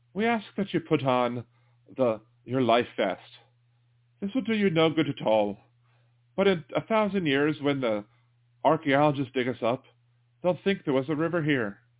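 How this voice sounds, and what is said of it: Put-on Irish-sounding accent. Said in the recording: “I think I did more of an Irish than a Scottish accent”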